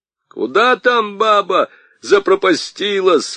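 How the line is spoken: Frantic old man shouting. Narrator (Russian): вне себя кричал старик Аргылов

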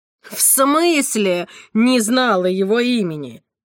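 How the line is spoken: Loud laughter. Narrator (Russian): Элен громко захохотала

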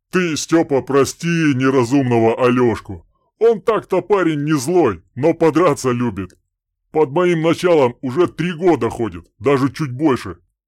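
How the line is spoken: Deep bass explanation. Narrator (Russian): пояснял басом Добрыня

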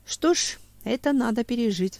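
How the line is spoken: Sighing. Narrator (Russian): вздохнул Семен

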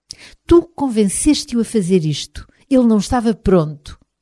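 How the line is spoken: Grandmother shouting. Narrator (Portuguese): a avó gritar

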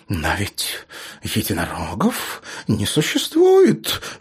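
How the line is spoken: Babbling. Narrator (Russian): лепетала миссис Дорис

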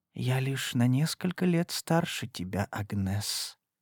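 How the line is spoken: Whispered. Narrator (Russian): прошептала она

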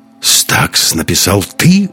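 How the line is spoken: Admiring exclamation. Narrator (Russian): воскликнул Андерс с восхищением

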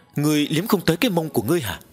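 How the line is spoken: Groan. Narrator (Vietnamese): Long Kỳ Lân rên lên một tiếng

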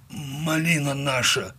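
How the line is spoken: Forced out with effort. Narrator (Russian): выдавил он наконец

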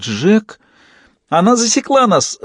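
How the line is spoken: Shrill squeal. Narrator (Russian): взвизгнул паяц

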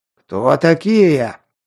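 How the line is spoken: Hoarse croak. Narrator (Russian): прохрипел

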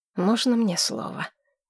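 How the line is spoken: Exhaled, finally speaking. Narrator (Russian): выдохнул, наконец, Дер Роллес

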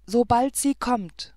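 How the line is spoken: Calling out. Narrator (German): rief er

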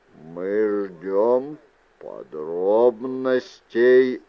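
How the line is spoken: Clipped precise words. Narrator (Russian): отчеканил Мендер

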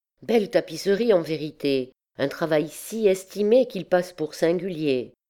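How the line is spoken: Young girl exclaiming. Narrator (French): Bérengère de Champchevrier, svelte petite fille de 7 ans, s'écria

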